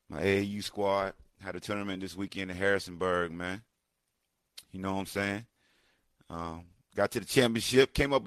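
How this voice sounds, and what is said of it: Hoarse voice. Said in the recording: “Excuse my voice. I'm a little hoarse.”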